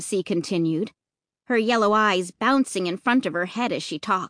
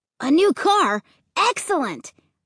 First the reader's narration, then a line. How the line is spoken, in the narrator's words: Luke exclaimed